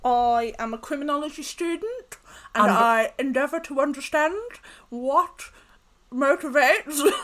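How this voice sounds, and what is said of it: Exaggerated old lady voice. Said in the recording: “I'm doing my Leah's old woman voice. ... That's Leah's impression of Tabitha. ... I'm doing her old lady voice.”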